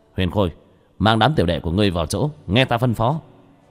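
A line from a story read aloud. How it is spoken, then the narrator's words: Shouted. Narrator (Vietnamese): Sa Trần quát lên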